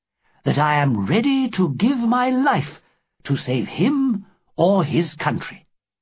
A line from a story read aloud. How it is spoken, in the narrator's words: answered warmly